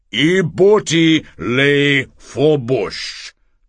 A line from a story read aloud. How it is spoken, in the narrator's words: Tongman repeated loudly